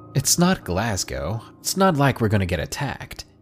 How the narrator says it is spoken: laughed saying

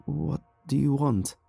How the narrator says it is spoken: My voice was hoarse and shaky from years without use, but I tried to sound as firm as I could

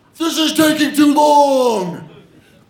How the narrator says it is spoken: my coach yells

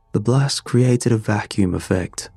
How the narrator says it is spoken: I continued, a touch too brightly for the subject

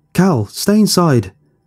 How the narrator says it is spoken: I yelled

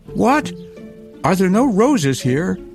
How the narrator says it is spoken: cried Gerda

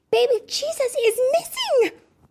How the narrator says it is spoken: Piper gasped

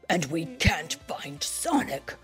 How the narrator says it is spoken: Knuckles said gruffly

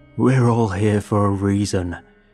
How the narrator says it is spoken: bellow, spittle flying from his lips

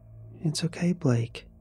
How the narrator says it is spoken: says softly

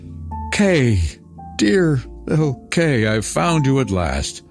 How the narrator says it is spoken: She exclaimed

